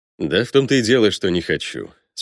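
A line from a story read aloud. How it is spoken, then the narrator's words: Calm. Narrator (Russian): спокойно покачал головой Сергей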